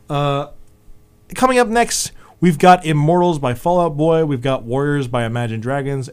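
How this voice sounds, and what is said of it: Voice worn out, giving out. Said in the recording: “I'm losing my voice”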